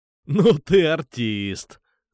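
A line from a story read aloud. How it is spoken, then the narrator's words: Laughing. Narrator (Russian): засмеялся я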